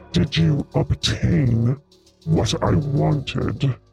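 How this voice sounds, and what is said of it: Deep voice. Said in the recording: “a deep voice emanates from every corner”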